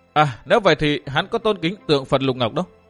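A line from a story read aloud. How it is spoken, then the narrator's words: Sudden realization exclaim. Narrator (Vietnamese): Dương Viễn chợt hiểu ra kêu lên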